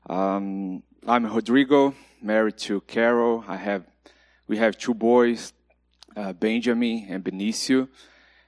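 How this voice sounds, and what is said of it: Brazilian accent in English. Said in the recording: “my accent is from Brazil ... my broken English”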